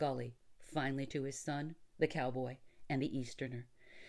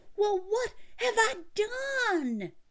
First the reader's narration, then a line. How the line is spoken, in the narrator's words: he screamed at his father